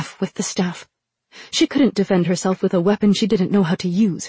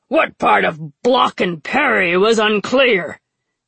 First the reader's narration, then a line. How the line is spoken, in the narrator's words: he growled